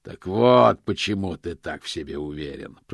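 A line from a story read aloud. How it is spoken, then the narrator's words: Growling. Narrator (Russian): прорычал Позолот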